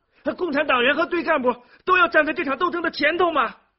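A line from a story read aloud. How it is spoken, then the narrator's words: Loud shouting. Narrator (Chinese): 孙玉婷大声嚷着说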